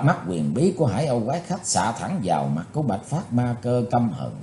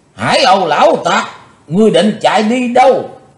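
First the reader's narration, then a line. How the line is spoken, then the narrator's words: Old man's loud roar. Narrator (Vietnamese): lão đã gầm to lên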